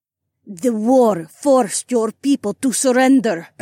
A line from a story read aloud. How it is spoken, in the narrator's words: Adhara snarled